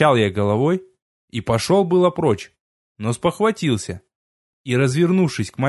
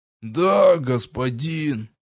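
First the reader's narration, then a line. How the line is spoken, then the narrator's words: Dull lifeless reply. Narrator (Russian): потухшим голосом ответил Древин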